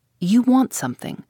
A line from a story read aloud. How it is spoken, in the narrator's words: she answered sharply and suspiciously